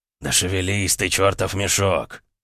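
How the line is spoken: Angry impatient cursing. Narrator (Russian): Зло выругался он, заметив, что парень медлит

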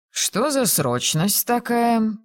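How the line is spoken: Grumbling. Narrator (Russian): проворчал он при виде кузины

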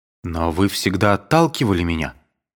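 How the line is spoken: Timid speech. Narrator (Russian): робко говорил Александр

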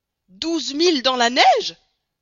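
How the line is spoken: Exclaimed. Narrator (French): s'écria Stamp W

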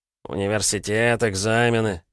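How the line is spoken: Grumbling. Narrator (Russian): проворчал Али

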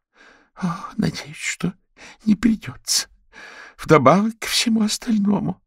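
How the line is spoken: Groaned. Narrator (Russian): простонал Читтерс

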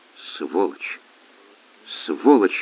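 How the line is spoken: Whispered. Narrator (Russian): шептал

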